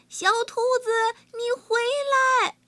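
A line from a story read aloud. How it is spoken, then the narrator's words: Astonished shout, chasing. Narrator (Chinese): 华谷和华杏儿惊讶极了，华杏在后面追着喊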